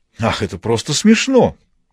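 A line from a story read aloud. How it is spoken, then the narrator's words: Exclaiming. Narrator (Russian): воскликнул Маркус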